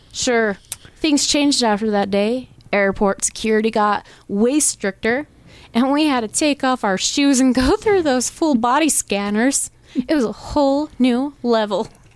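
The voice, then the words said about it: Put-on Southern American accent. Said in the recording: “you slowly put on a Southern accent”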